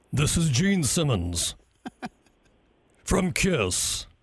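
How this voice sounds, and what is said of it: Imitates another person's voice. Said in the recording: “a really a very short and sweet impersonation of Gene Simmons”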